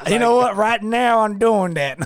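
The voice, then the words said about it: Put-on Southern accent. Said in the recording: “how come you got a Southern accent?”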